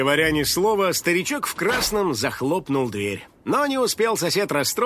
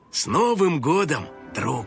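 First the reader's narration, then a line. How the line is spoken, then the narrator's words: Solemn old man. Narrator (Russian): дедуля торжественно произнес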